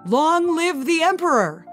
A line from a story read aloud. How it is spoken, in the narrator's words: The shout became joyful cheers